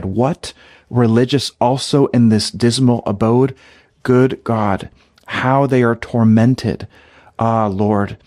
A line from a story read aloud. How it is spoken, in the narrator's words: terror-stricken, and sighing deeply, she cried